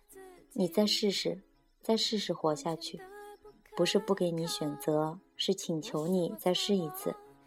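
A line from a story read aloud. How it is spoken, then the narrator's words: Repeated pleading murmur. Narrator (Chinese): 一遍又一遍喃喃地说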